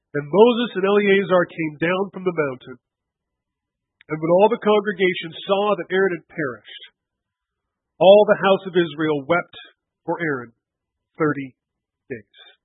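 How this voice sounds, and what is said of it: Choked-up, emotional voice. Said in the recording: “getting choked up at this passage”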